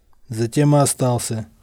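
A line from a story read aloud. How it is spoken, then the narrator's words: Snort. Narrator (Russian): хмыкнул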